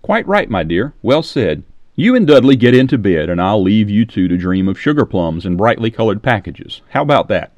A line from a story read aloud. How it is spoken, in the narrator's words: she laughed at her own words